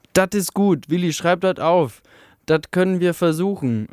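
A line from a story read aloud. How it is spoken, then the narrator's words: Calling out. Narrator (German): rief eine Stimme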